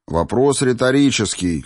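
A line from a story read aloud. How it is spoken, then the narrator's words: Snorting. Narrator (Russian): хмыкнул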